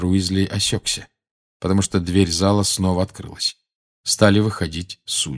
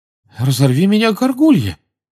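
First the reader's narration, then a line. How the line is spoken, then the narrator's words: Astonished exclamation. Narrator (Russian): изумленно воскликнул мистер Уизли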